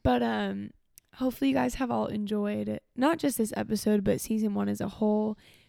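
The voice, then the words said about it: Tired voice after crying. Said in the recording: “it doesn't sound like it in my voice because I'm tired and, as we established, was crying for an hour. So you can hear it in my voice.”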